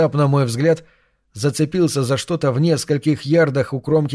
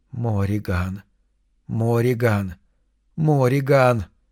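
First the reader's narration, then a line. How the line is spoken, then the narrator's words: Rapid whisper. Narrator (Russian): Чем быстрее она шептала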